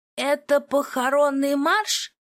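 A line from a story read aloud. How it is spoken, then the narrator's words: Loud question, half-deaf man. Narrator (Russian): громко поинтересовался наполовину глухой маркиз Рашфорд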